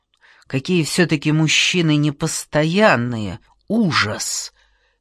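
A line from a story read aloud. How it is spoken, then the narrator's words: Through gritted teeth. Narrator (Russian): сквозь зубы сказала Сонечка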